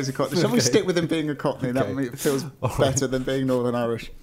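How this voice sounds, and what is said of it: Usual voice. Nothing is said of it.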